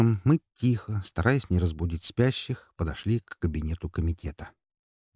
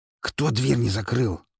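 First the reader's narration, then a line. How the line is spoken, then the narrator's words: Hissing. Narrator (Russian): зашипело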